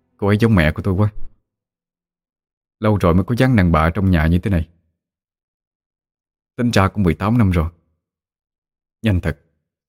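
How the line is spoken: Sighing. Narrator (Vietnamese): A Phú thở dài nói với Khôi

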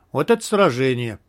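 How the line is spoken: Relieved sigh. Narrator (Russian): Командор облегченно вздохнул

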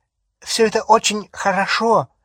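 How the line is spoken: Sharp. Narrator (Russian): резко произнесла Флэр

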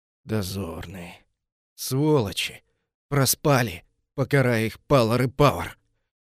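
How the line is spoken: Warrior's near hiss. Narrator (Russian): практически прошипел воин

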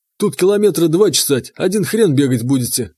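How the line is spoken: Scoffing snort. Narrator (Russian): хмыкнул он

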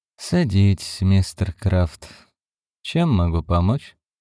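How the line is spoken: Detached, sympathetic tone. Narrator (Russian): Хэмптон говорил отстраненным, сочувственным тоном человека, который большую часть своей карьеры наблюдал за страданиями и насилием

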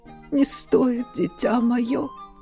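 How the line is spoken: Dying voice. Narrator (Russian): Умирающим голосом сообщил маэстро

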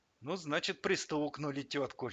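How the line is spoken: Light sigh. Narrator (Russian): легко вздохнул Альберт Витальевич

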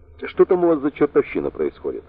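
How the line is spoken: Indignant question. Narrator (Russian): возмущенно спросил Сэм

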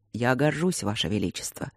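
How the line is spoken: Soft reply, colonel. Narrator (Russian): мягко ответил полковник

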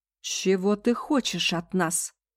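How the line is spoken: Exclaiming. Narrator (Russian): воскликнула Эсси

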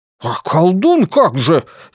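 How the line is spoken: Indignant exclamation. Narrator (Russian): негодующе воскликнул Леон

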